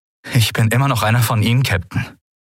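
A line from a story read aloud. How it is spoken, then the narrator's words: Fairly steady voice. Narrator (German): sagte er mit halbwegs fester Stimme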